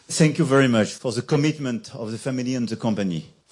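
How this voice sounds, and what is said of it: French-accented English. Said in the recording (German): “diesen französischen Akzent”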